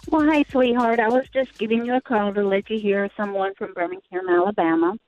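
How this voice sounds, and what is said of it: Southern drawl. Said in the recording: “Southern drawl”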